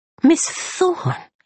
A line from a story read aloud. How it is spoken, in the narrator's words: cried the little man